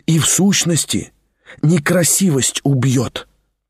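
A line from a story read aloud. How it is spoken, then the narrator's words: Whisper. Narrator (Russian): прошептал Тихон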